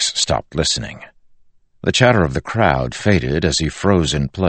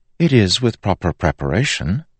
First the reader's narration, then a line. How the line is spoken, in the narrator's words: Marcy said